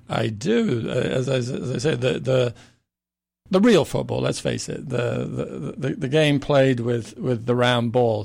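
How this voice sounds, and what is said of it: English accent. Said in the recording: “this is ... real accent, even though we always kid him and say it's fake. He's from England.”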